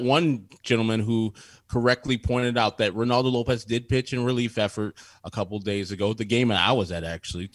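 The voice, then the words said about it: Slightly hoarse voice. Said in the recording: “I'm a little hoarse.”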